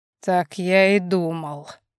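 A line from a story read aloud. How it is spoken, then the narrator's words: Heavy sigh. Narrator (Russian): тяжело вздохнул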